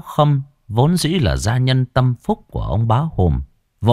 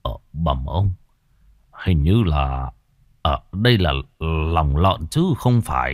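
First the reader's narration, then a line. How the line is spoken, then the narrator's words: Old man muttering, frowning. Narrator (Vietnamese): lão Khâm khẽ cau mày lẩm bẩm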